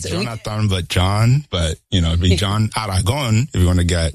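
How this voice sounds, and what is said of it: Colombian Spanish accent. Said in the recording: “I like the way you say it too. I love the accent that comes through. You're from Colombia”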